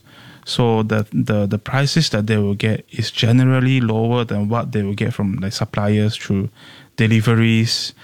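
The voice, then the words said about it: Singaporean English accent. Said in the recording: “your accent ... You're very Singaporean accent ... the way you speak, the words you choose, your yes. accent, it's very comfortably Singaporean”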